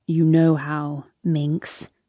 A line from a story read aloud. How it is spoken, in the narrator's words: he whispers